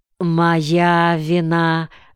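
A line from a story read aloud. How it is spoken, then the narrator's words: Plain. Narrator (Russian): сказал Фарнаус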